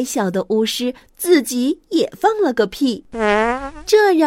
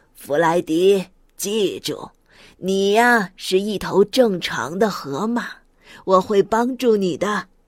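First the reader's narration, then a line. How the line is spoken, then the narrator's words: Smiling wizard. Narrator (Chinese): 巫师笑了笑，说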